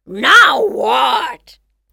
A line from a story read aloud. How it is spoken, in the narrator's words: roared the tiger